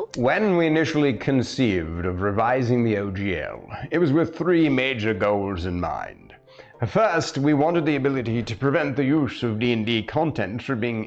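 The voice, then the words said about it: Silly put-on accent. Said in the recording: “my silly accents that I use when I'm playing my stream games”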